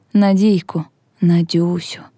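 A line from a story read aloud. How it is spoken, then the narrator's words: Whisper. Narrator (Ukrainian): шепотів Степан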